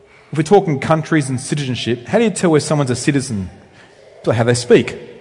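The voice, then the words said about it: Slow-paced rural Australian accent. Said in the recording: “You can tell I'm from Australia, I hope, by how I speak. ... So I come from rural Australia. Maybe I talk a bit slower. That's what they say about Queenslanders.”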